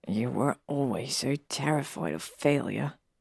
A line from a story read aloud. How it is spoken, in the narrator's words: Harry mutters